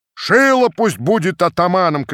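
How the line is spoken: Crowd shouting. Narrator (Russian): кричали одни

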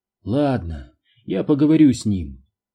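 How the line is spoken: Weary sigh. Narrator (Russian): устало вздохнула она

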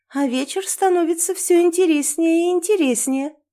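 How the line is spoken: Mocking. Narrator (Russian): насмешливо произношу я

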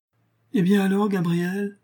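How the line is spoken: Exclaimed. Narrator (French): s'écria Julien

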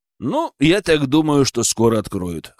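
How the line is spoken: Wry snort. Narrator (Russian): хмыкнул

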